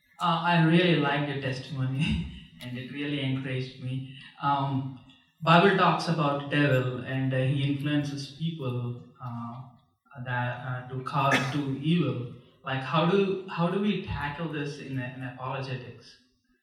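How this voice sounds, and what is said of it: Strong accent, hard to understand. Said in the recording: “because of your accent, I didn't quite understand the question”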